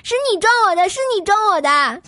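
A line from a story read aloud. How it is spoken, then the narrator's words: Old man shouting while leaving. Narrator (Chinese): 那大爷…边走边喊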